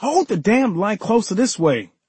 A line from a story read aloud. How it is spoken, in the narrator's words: I yelled at my brother